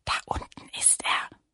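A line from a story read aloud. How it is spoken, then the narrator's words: Whisper. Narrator (German): flüsterte Lilli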